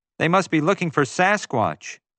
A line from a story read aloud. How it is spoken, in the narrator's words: I yelled